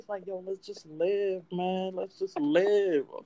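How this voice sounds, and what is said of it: Laid-back hippie-like voice. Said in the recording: “You sound like a hippie, bro”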